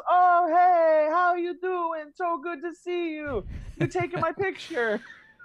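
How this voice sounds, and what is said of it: Put-on Italian-sounding accent. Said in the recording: “I feel like that was like an Italian accent. I meant to do more of a Spanish”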